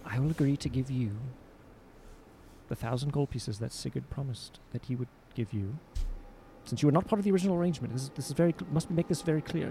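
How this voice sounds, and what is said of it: Soft scholarly character voice. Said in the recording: “I'm going to speak softly in my scholarly voice.”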